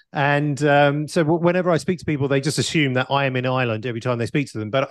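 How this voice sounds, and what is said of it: British accent. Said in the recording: “maybe you can tell by my accent that I am in the UK ... a lot of people think I'm Irish”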